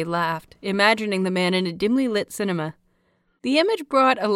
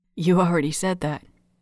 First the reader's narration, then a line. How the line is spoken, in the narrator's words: Yuri whispered, grinning